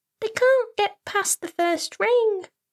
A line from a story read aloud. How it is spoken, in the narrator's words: she squeaked